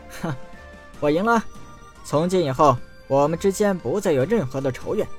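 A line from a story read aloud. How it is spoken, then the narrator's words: Laughing. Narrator (Chinese): 陈南笑道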